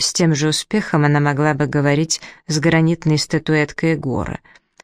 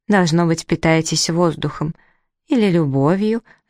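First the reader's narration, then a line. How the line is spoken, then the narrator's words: Very tender. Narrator (Russian): закончила она очень ласково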